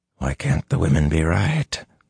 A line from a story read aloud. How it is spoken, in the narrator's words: Luce Theron whispered fiercely in his head